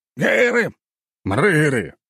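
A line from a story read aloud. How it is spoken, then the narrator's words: Barked. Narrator (Russian): рявкнул Сергей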